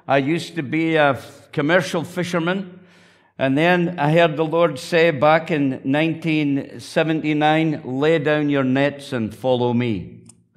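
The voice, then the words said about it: Northern Scottish accent. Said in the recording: “a little bit different accent from the north of Scotland”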